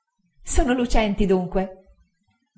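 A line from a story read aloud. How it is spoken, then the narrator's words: Laughing reply. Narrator (Italian): rispose Dora ridendo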